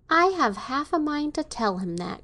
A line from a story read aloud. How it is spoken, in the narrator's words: cried Marian